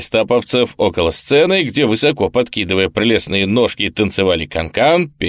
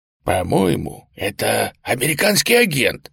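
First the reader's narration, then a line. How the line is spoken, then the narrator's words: Whisper. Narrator (Russian): шепнул один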